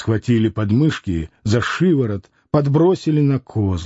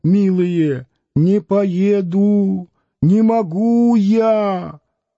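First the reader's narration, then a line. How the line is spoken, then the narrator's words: Howling in a woman's voice. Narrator (Russian): завыл женским голосом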